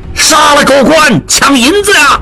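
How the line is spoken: Crowd shouting. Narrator (Chinese): 众犯人响应，大喊着

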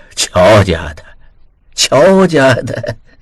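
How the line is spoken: Murmuring. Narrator (Chinese): 老君族嘴里喃喃道

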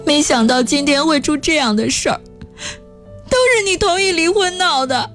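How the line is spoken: Crying. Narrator (Chinese): 江小玲哭着说

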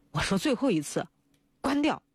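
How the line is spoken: Furious, through gritted teeth. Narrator (Chinese): 李孝明满腔的愤怒都指向王伯阳，咬牙切齿道

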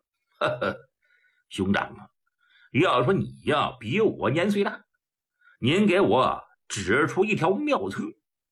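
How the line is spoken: Laughing. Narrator (Chinese): 普莲笑了

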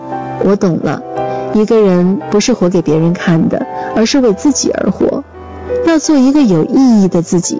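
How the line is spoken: Poet, smiling. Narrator (Chinese): 诗人笑了，他说

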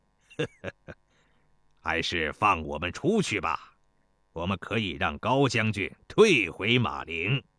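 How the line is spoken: Light laugh. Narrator (Chinese): 魏叔轻笑道

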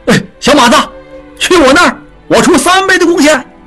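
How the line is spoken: Quick shout. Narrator (Chinese): 德顺昌的二掌柜立刻喊道

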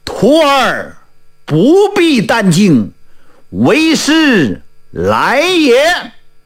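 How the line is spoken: Loud shout. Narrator (Chinese): 有人大叫一声

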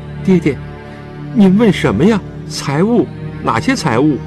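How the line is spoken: Dazed tearful murmur. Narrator (Chinese): 从无限的悲伤中将将回转 茫然地 泪水纵横 喃喃地问

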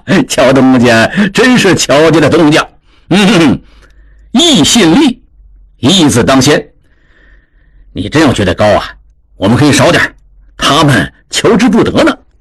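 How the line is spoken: Laughing loudly. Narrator (Chinese): 侯元大笑道

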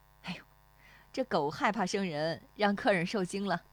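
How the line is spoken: Laughing. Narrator (Chinese): 那妇女对史丽华笑

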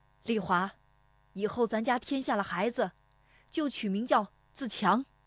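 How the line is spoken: Calling out. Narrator (Chinese): 父亲对着堂屋喊了一声

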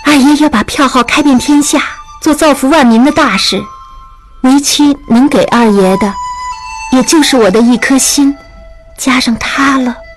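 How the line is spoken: Sighing. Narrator (Chinese): 约翰叹口气说

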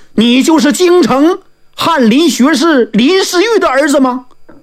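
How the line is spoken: Woman calling out. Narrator (Chinese): 那个女人喊了一声

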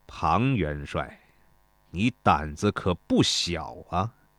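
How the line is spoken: Slow, menacing. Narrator (Chinese): 楚王 眼含杀机，对庞涓缓缓说道

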